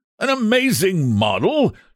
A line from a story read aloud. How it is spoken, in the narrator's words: shouted Trevor at the top of his voice